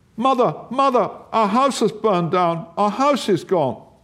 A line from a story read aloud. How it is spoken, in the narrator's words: Then she cried